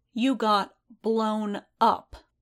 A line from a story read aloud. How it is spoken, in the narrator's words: she said, slowly, like she thought that Din might still be concussed